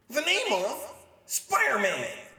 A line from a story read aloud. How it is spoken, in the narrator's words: Betty shouting